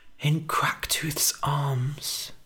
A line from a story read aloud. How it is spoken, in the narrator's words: whispered Billy